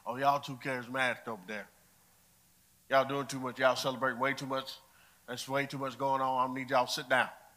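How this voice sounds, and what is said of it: Strong put-on accent. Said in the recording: “I don't know who I just sounded like ... That accent came out strong”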